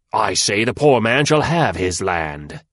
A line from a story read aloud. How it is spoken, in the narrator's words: he roared in a great voice